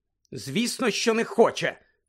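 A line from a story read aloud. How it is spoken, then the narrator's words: Sharp. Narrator (Ukrainian): різко мовила Герміона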